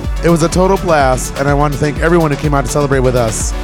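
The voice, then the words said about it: Strained, worn-out voice. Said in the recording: “apologize for my voice. I think I did a little too much singing along to the crowd”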